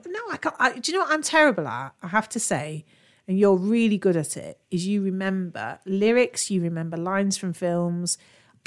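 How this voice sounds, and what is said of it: Nottingham English accent. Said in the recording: “Love your little Nottingham accent.”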